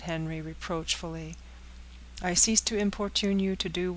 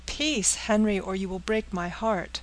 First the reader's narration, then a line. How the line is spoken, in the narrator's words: cried the agitated girl